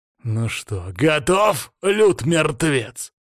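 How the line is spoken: Growling. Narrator (Russian): прорычал Оги

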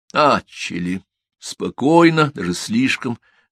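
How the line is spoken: Plain. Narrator (Russian): сказал Кафтанов

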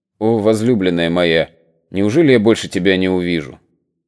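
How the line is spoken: Quiet, barely audible. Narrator (Russian): Тихо, чуть слышно произнес

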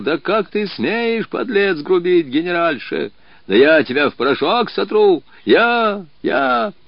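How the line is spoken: Menacing shout. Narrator (Russian): генерал грозно кричал

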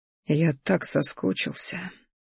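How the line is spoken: Quiet, deeply emotional. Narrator (Russian): произнес тихо, вкладывая в эти слова все те чувства, которые сейчас ураганом носились внутри меня

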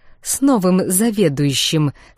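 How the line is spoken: Steely words through teeth. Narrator (Russian): с металлом в голосе процедила Гандалия

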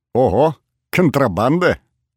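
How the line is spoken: Cheerful laughter. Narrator (Russian): весело рассмеялся Борис

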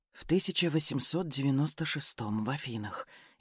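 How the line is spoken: Barely audible mutter. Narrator (Russian): еле слышно пробормотала Катюша

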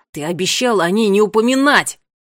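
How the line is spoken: Bark. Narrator (Russian): рявкнул Ларри

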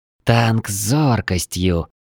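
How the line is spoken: Skeptical grumble. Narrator (Russian): Не скрывая скепсиса, пробурчала

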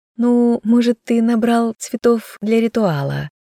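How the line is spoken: Giggling. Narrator (Russian): хихикнула я

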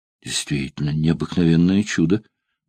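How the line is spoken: Muttering. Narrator (Russian): бормотал Апулей Тудертин, человек религиозный, полный предрассудков

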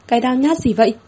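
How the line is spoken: Snapping. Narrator (Vietnamese): Thẩm Thẩm gắt

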